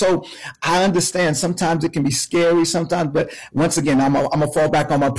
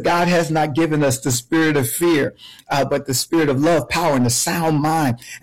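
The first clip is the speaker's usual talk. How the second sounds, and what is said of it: Preacher-style voice. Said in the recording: “my preacher voice”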